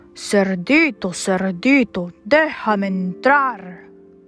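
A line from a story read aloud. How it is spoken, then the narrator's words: Growled. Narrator (Spanish): gruñó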